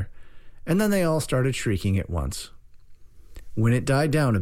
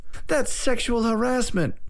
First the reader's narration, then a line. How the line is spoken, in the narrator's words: girl cried